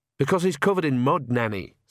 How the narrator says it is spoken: said Agnes sharply

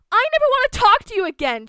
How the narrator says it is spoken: she yelled

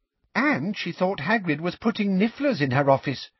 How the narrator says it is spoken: piped up Katie Bell

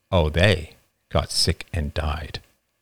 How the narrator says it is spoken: David said grimly

